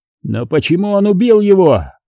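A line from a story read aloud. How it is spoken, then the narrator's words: Near shout. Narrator (Russian): почти крикнул Альгерд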